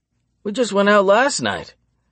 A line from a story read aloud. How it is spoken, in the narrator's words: he practically whines